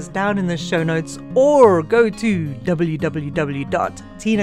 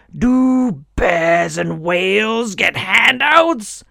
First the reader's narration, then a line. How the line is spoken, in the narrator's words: the elder would yell above the wind